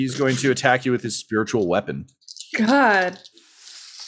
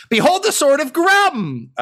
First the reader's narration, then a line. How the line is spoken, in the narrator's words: he just yells